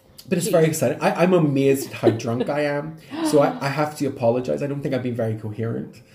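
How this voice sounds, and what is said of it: Northern Irish accent. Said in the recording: “you've got a beautiful accent, I have to say ... I do love the Northern Irish accent.”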